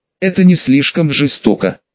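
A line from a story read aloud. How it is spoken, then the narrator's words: Quiet question. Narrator (Russian): тихо спросил у меня Гарри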